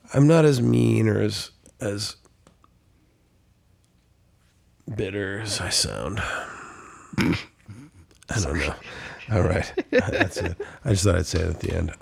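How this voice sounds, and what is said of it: Sick, under-the-weather voice. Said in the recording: “I'm a little sick... I've been coughing for 10 days... I'm just under the weather. You can hear it in my voice”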